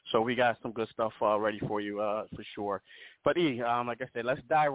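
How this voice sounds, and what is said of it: Rough, strained speaking voice. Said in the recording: “excuse my voice right before we went on, man. I had a coughing fit, so excuse me there for that”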